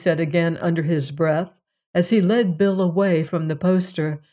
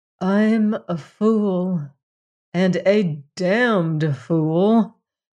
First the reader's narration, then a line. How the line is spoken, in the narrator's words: Anthony announced solemnly